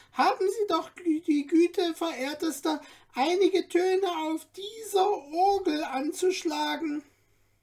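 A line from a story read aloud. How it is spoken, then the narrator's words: Sudden breaking-off call. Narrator (German): rief er plötzlich abbrechend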